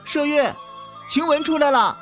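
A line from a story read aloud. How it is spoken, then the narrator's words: Shouting loudly. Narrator (Chinese): 宝玉在屋内高喊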